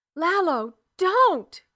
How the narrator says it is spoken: Keela screamed

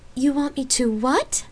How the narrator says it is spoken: She asked in a slightly incredulous tone

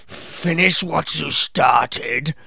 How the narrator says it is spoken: boomed

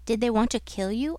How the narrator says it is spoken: I asked

